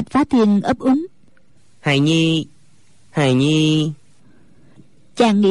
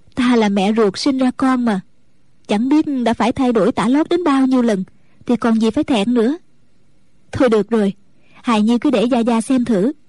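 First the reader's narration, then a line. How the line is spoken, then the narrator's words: Smiling. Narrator (Vietnamese): Mẫn Như mỉm cười nói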